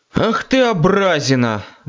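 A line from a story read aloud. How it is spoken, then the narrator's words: Sighing. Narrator (Russian): вздохнул я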